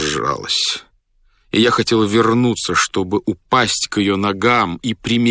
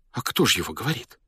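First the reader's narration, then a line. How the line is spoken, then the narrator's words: Frightened whisper. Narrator (Russian): испуганно прошептала она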